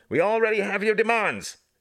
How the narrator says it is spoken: shouted, trying to control his horse

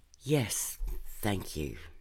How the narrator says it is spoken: Tess said

